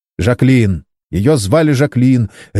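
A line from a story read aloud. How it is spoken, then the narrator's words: Sharp reply. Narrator (Russian): резко ответил Саймон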